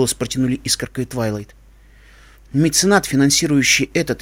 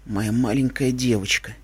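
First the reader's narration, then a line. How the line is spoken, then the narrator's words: Quiet. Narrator (Russian): тихо проговорила она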